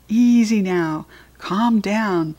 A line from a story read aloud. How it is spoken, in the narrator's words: I squeaked soothingly